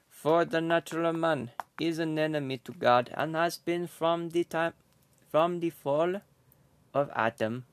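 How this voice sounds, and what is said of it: Put-on Jamaican accent. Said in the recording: “I memorized this in like a Jamaican accent”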